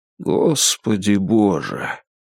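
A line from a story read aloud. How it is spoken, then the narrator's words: Quiet voice. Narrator (Russian): тихо произнес Баннерман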